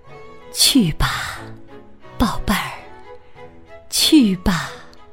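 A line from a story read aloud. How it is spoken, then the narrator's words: Soft, gentle. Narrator (Chinese): 妈妈在轻声地说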